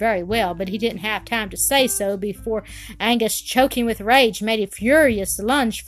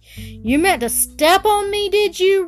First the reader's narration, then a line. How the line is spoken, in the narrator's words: roared Angus